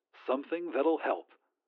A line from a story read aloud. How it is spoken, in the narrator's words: said the voice in a hushed tone